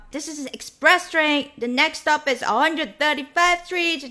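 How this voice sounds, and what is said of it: Imitated Black American accent, drawn-out endings. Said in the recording (Chinese): “黑人的口音还是很明显的...就是会拖了很长的那个尾音”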